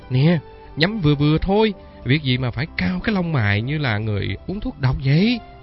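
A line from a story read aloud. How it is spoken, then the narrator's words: Laughing. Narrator (Vietnamese): Phong mới bật cười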